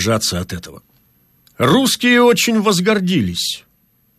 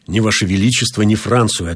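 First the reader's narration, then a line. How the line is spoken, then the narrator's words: Plain. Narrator (Russian): ответил я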